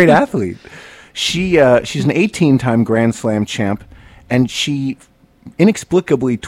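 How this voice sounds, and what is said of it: Usual voice. Nothing is said of it.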